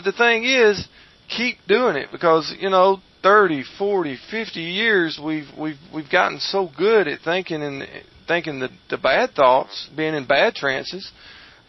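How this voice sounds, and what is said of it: Southern American accent, folksy and restful. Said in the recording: “Don't you just love ... Southern accent? ... I find it very arresting. ... Very restful. ... Very, very folksy and very restful.”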